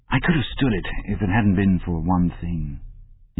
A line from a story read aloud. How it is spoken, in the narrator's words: he said